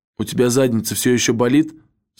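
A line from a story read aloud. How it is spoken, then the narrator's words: Plain. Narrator (Russian): спросил я Мокко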